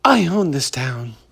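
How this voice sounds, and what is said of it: Imitates another person's voice. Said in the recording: “my Hollywood impression. ... Dude, he was such a pansy.”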